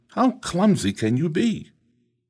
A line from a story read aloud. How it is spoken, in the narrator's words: Does the pot exclaim